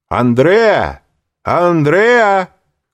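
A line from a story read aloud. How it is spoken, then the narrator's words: Several young men shouting. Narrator (Russian): крикнуло несколько молодых людей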